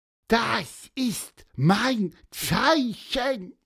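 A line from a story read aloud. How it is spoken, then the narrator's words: Squeaky peep. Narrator (German): piepste Pieper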